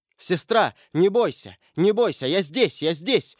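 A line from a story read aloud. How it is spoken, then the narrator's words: Shout. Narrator (Russian): крикнул он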